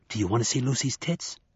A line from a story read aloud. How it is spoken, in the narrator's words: Something with a Lucy voice whispered in his memory